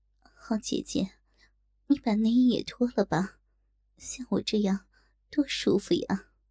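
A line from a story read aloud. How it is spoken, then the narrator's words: Gentle voice. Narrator (Chinese): 曼娘温柔的声音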